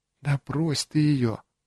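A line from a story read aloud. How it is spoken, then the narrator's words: Trembling whisper. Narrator (Russian): прошептала она слегка подрагивающим голосом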